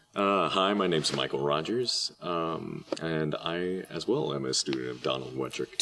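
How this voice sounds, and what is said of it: Deep, bassy radio voice. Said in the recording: “Turn up the bass ... You got that radio voice.”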